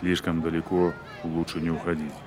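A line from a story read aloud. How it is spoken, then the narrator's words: Evasive mutter. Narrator (Russian): уклончиво буркнул Порфирьев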